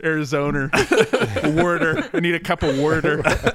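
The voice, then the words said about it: Put-on Philadelphia accent. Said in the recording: “That's my new Philly accent ... You've been working on your Philadelphia accent?”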